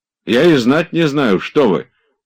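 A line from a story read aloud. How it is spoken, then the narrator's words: Almost menacing objection. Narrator (Russian): почти грозно возражал Обломов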